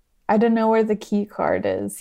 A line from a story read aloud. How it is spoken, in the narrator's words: he said